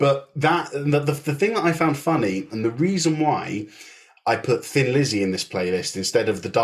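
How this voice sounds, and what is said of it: Usual voice. Nothing is said of it.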